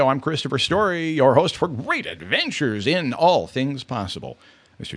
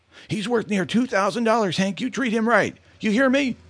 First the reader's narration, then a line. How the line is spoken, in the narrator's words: Tommy hollered out after Hank